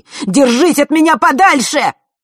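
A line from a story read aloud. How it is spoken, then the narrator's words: Angry shout. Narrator (Russian): Зло выкрикнул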